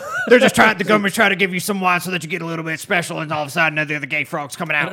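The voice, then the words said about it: Alex Jones impression, throaty, angry. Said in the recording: “I think that's more accurate... Alex Jones impression... your Alex Jones has got to come from your throat and a lot of hatred”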